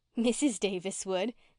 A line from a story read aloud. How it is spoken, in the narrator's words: giggled Faith